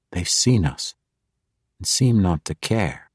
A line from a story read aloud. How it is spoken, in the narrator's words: Jarl Axel whispered